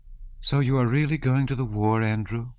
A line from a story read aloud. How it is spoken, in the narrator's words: she said, sighing